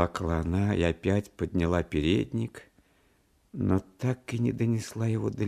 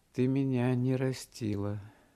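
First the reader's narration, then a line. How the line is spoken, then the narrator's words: Meek and sad. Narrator (Russian): сказал кротко и грустно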